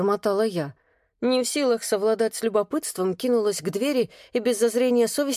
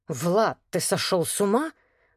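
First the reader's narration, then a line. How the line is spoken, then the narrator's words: Hissing. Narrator (Russian): зашипела Елена Владленовна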